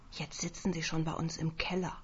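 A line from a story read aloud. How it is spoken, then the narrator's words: Eldest sibling whispering. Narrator (German): den Ältesten dazu, den Geschwistern zuzuflüstern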